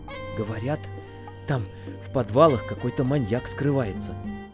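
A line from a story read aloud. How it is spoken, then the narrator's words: Classmate whispering. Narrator (Russian): прошептал кто-то из моих одноклассников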